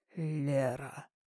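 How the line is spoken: Man's deep bass. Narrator (Russian): начал мужчина все тем же густым басом

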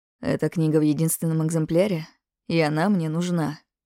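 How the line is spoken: Ingratiating, soft. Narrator (Russian): Вокс вкрадчиво произнес

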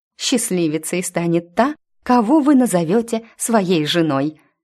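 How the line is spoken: Admiring exclamation. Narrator (Russian): восхищенно воскликнула я

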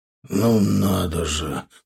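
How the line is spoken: Mumbling. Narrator (Russian): пробормотал он

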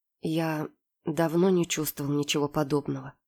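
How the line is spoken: Quiet, hushed. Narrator (Russian): тихо сказал он, словно боясь нарушить хрупкую магию момента

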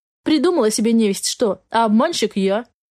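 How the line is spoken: Snorting, wry. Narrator (Russian): хмыкнул охранитель сумрака

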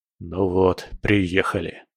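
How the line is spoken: Grumbling. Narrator (Russian): проворчал он

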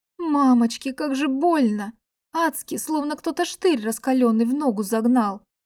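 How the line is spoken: Whimpering like beaten dog. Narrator (Russian): Заскулила побитой собакой

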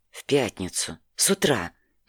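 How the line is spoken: Quiet scolding. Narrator (Russian): не оборачиваясь, тихо бронила Анна

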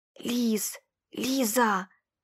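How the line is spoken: Whispered calling. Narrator (Russian): шептал друг мне вслед

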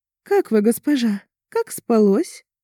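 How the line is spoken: Snide, mocking. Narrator (Russian): ехидно произнесла она

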